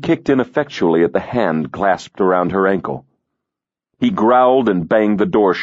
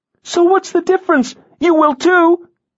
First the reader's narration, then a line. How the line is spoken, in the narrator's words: she cried